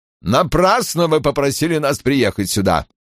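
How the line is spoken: Calm but grim. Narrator (Russian): Говорил он спокойно, но очень мрачно

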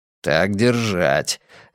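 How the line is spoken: Encouraging mutter. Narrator (Russian): ободряюще пробормотал Каз

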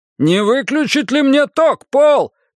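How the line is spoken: Shouting through window screen. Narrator (Russian): крикнул Ван Хэй через сетку окна

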